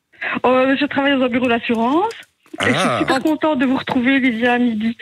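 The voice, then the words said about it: Slight regional French accent. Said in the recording (French): “T'as entendu un petit accent ... derrière ... ça, c'est des voisins”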